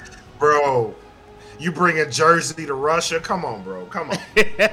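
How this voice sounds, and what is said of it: Usual voice. Nothing is said of it.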